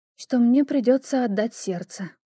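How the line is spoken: Tired. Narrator (Russian): произнесла я, устало прикрывая глаза

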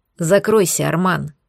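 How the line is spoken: Werewolf's growl. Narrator (Russian): прорычал оборотень

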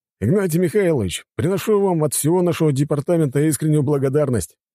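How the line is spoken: Cheerful speech. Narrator (Russian): весело сказал он

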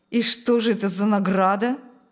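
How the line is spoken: Ironic snort. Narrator (Russian): Снова иронично хмыкнул Шталь

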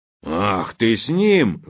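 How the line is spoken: Roaring boar. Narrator (Russian): взревел кабан

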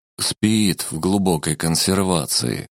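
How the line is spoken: Sigh. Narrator (Russian): вздохнул шаман

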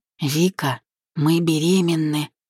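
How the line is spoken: Whisper, then smiling, clipped words. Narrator (Russian): прошептал, улыбнувшись, повторил, чеканя каждое слово

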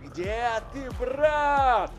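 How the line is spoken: Yell. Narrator (Russian): заорал Вациферон

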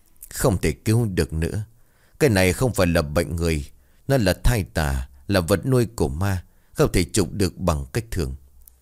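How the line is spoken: Muttering. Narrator (Vietnamese): Ông thầy bấy giờ lẩm bẩm

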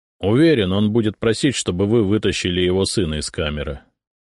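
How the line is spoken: Dry. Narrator (Russian): сухо сказал Зотов

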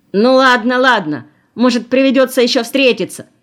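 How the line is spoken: Shrill shout. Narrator (Russian): крикнул визгливо

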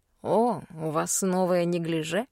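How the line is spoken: Amused snort. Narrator (Russian): хмыкнул лорд

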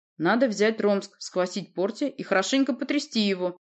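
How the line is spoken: Menacing. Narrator (Russian): грозно произнес Урий

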